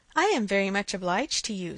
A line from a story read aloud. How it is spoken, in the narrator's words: said Emma, laughing again